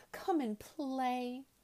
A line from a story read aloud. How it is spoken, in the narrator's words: she whispered